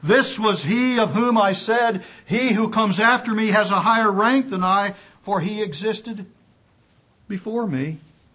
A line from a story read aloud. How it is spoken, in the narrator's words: John testified about Him and cried out, saying